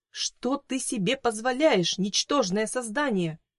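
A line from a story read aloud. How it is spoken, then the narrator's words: Indignant exclamation. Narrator (Russian): воскликнула она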